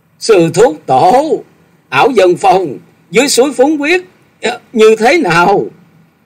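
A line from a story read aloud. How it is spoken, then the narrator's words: Urgent shout. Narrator (Vietnamese): Chàng vội kề tai ông rồi thét gọi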